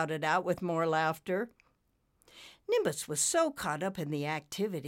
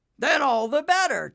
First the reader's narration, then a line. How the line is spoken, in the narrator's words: Taz shouted